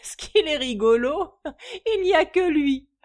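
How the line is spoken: Exclamation. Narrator (French): s'écria-t-il

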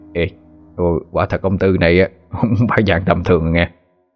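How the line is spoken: Soft, quiet. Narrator (Vietnamese): chú Ba Phu mới khẽ cất giọng

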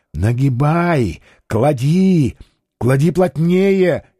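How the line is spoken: Whisper. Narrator (Russian): Жемов уже шепотом

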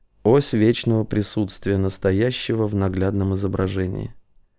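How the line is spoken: Muttering. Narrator (Russian): Самандар пробормотал

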